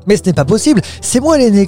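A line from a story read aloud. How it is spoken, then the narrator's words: Shouting. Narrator (French): cria l'autre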